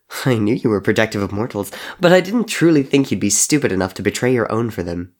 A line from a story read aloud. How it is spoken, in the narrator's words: Henry laughed